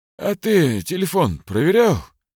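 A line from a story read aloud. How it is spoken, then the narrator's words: Lazy yawn. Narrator (Russian): лениво зевнул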